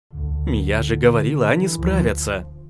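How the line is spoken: Joyful announcement. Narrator (Russian): радостно возвестила Аня

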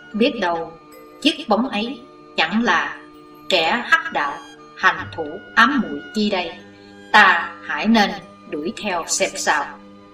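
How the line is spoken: Mutter. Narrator (Vietnamese): lẩm bẩm

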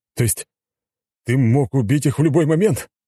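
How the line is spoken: Hysterical shout. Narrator (Russian): Постепенно впадая в истерику, закричал Александр

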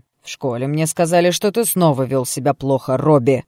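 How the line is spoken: Woman barking loudly. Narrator (Russian): гаркнула женщина

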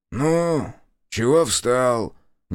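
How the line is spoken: Displeased grumble. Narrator (Russian): недовольно пробурчал кочегар

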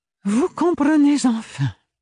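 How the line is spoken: Sighing, stifling a yawn. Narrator (French): soupira Bérénilde en réprimant un bâillement

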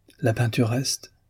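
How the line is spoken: Murmured. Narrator (French): murmura Demian

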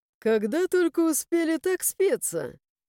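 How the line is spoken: Soft laughter. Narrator (Russian): Мягко засмеялся канцлер

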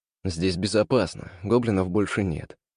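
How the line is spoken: Deliberately calm, soothing. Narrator (Russian): сказал я, стараясь говорить спокойно, чтобы не напугать ее еще больше

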